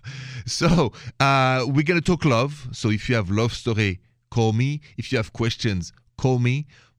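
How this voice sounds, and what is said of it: French Parisian accent. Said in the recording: “accent is French, français, straight from Paris ... The accent didn't cross the border, it's still there.”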